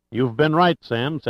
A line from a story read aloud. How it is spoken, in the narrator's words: said Sandecker